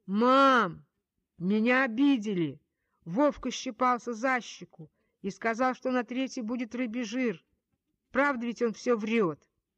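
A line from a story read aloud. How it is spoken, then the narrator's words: Loud wailing. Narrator (Russian): набравшись свежих сил, я взвыла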